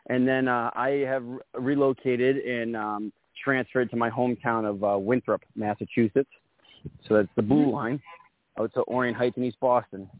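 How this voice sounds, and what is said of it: Boston accent. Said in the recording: “I got that Boston accent”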